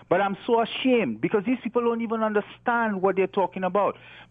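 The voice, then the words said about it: Island accent. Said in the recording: “You can tell that I have an accent. I came from the islands originally.”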